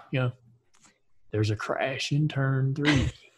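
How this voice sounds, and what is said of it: Morgan Freeman impression, quiet. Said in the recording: “Morgan would be too quiet. ... I don't even know if I can do an impression”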